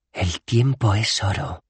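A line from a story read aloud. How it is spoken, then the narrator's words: Hiss. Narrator (Spanish): siseó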